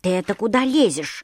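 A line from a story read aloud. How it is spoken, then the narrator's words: Grumbling. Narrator (Russian): заворчал башмачок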